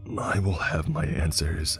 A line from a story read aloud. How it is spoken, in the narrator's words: I whispered under my breath